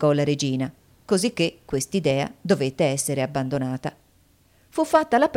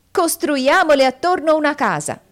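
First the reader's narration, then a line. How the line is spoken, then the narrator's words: Shouted together. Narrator (Italian): essi gridarono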